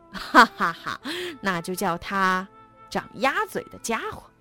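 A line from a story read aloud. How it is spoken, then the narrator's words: Loud laughter. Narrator (Chinese): 猎狗大笑着说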